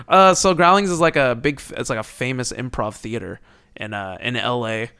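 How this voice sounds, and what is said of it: Put-on LA guy voice. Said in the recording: “I'm talking like an LA guy”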